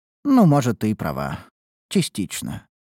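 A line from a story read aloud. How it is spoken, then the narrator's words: Sighing. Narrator (Russian): вздохнула Эббот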